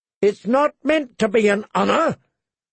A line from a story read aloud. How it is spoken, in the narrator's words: Joffrey screamed